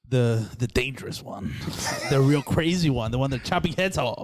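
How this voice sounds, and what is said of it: Speaks with a noticeable accent. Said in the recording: “you look like a light-skinned black until you start talking... Until the accent... Don't make fun of my accent”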